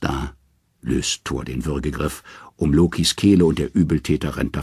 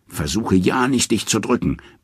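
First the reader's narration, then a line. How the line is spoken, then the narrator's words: Bellowed after someone. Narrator (German): brüllt Thor ihm nach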